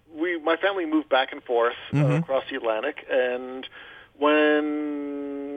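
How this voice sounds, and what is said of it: Thick English accent. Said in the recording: “Can tell from the accent. ... Oh, yeah, I could tell. Definitely very thick.”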